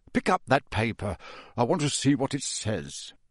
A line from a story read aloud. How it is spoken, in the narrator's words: he added in an undertone